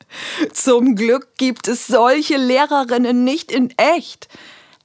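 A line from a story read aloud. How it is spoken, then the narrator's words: Laughing. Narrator (German): lacht Sophia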